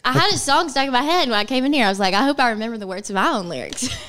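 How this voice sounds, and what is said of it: Alabama Southern accent. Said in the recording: “Sorry, it's my accent. ... I have the same accent ... I'm from Arkansas. You're from ... Alabama. Yes.”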